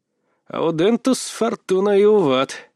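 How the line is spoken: Mumbling. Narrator (Russian): пробормотал

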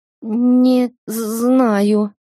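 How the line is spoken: Stammering, woman. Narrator (Russian): заикалась я

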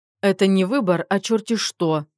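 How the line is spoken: Snapping mother-in-law. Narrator (Russian): огрызнулась свекровь

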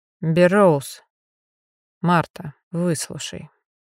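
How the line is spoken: Gentle interjection. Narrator (Russian): мягко вмешался Эйден

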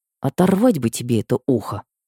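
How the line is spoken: Whispered. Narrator (Russian): прошептала Женя

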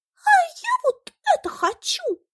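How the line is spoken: Squeaky little fly. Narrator (Russian): запищала мушка Каприскина

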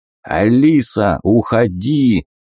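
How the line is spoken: Growling. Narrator (Russian): зарычал Сахатый

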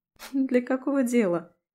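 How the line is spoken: Snort. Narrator (Russian): Я хмыкнула

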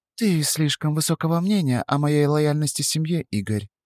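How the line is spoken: Said quietly. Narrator (Russian): тихо сказала она

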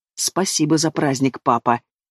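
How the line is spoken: Hissing. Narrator (Russian): Зашипел я

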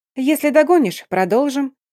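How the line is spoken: Cheerful reply. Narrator (Russian): весело отозвалась наследница барона

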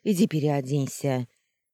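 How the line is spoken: Snorting remark. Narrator (Russian): хмыкнула хозяйка этого злачного места

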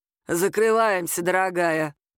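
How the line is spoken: Deep bass voice. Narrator (Russian): пробасила та

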